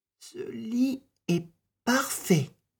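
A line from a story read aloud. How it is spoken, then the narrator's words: Happy voice. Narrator (French): dit-elle d'une voix heureuse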